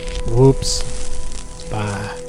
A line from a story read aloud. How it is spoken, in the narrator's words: whispered